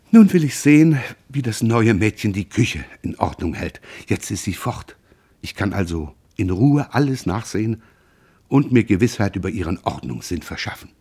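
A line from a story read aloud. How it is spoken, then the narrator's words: Tearful, slightly trembling voice. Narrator (German): wischte sie eine Träne aus dem Augenwinkel und sagte mit etwas zitternder Stimme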